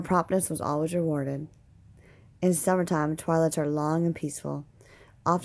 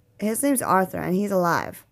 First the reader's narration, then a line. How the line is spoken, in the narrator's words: she said